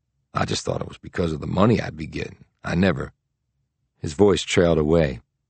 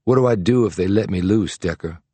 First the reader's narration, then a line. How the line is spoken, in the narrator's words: He said in a hollow tone